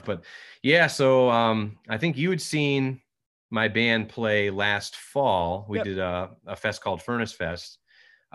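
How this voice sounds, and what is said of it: Slightly hoarse voice. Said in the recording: “I'm a little bit hoarse, because I was kind of, I don't know, singing some stuff”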